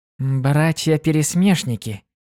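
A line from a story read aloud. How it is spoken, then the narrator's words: Pony's whisper. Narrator (Russian): прошептала синяя пони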